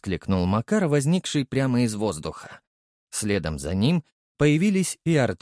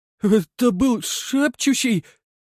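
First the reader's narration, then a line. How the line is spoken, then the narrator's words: Trembling voice, asking. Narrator (Russian): дрожащим голосом спросил Артем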